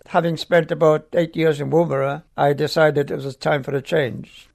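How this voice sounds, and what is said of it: Slight Welsh accent. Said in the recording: “I noticed a, a, little accent. ... I've got a Welsh accent.”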